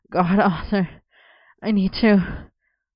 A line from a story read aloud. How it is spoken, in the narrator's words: Merlin panted